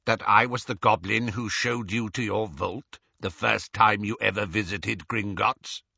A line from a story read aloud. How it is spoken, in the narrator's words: said Griphook